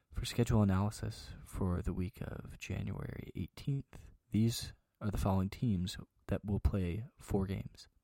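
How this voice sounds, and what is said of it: Smooth, sultry radio-announcer voice. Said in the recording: “I'm gonna start to go like a really sexy voice for these. Try to be like a uh, NPR kind of voice.”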